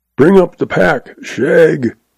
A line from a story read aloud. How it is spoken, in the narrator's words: All Zeb has to do is to holler